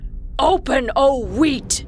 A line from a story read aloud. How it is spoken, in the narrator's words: Irritated, Kasim yelled